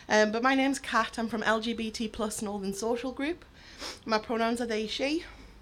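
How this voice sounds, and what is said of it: Hoarse, partly lost voice. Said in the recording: “I've lost my voice a bit today”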